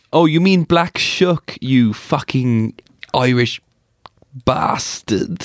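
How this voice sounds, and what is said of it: Put-on English accent. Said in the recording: “Good accent.”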